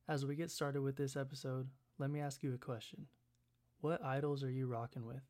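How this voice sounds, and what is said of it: Worn-out, hoarse voice. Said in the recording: “my voice is kind of dead”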